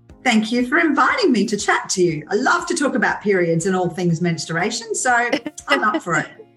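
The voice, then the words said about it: Australian accent. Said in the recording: “I love your accents. Anytime I get to talk to someone in Australia ... your accent is lovely”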